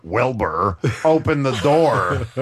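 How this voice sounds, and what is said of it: Imitates a talking horse's voice. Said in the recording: “that wonderful imitation of Jim or Mr. Ed. ... It was a good imitation.”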